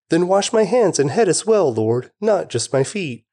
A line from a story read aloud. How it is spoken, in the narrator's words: exclaimed